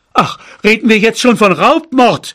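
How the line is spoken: Father shouting. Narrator (German): schrie mein Vater

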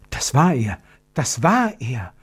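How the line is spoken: Whispering. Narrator (German): flüsterte Gertrud

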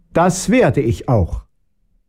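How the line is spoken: Princess calling after. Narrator (German): rief die Fürstin ihrem Gemahl hinterher

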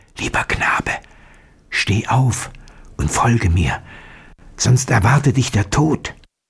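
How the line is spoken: Whisper. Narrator (German): flüsterte ihm zu

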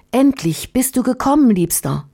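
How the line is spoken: Calling out. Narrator (German): rief

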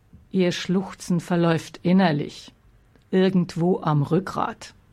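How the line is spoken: Plain, curt. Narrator (German): sagte Alex nur

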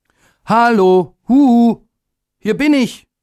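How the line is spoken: Called out. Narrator (German): rief er

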